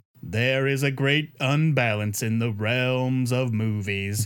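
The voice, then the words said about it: Booming deep imitated voice. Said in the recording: “in a booming Morgan Freeman voice ... I'm doing this stupid voice ... It's a terrible Morgan Freeman.”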